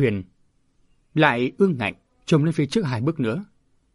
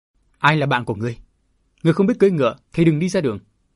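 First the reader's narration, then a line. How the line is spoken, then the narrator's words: Laughing, defiant young voice. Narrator (Vietnamese): thiếu niên nọ lại bật cười ha hả, nói giọng ngang ngạnh mà rất hay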